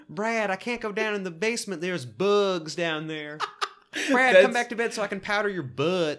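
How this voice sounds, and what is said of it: Impression of Randy, southern lilt. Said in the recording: “Randy does his best impression of Truman doing an impression of Jill. Because he gives it this, like, southern lilt. ... Exactly what Randy sounds like in this scene.”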